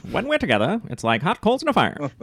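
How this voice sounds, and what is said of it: Put-on transatlantic accent. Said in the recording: “You should do it in the transatlantic accent.”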